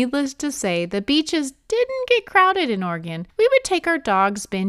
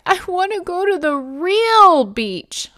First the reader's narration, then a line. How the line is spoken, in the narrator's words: shivering and cried